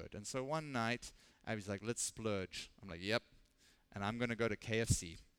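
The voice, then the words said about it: Strong regional accent. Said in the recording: “You guys can hear I have an accent. It's by a miracle if you guys can understand anything I'm saying.”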